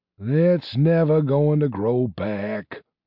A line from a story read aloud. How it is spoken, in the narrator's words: grumbled Pasteur